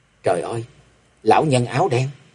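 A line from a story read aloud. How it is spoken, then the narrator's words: Terrified mutter. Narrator (Vietnamese): Kế quan kinh hoàng lẩm bẩm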